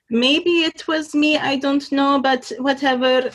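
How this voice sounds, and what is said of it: Imitating mother with an accent. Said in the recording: “I like the accent you do for her.”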